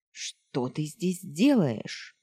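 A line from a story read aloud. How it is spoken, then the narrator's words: Stern question. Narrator (Russian): строго спросила Хейлин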